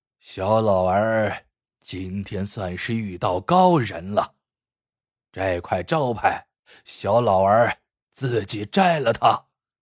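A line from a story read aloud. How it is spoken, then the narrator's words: Sighing. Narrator (Chinese): 叹息道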